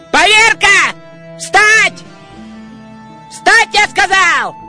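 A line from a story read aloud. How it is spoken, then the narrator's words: Shouting. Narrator (Russian): Веселый кричал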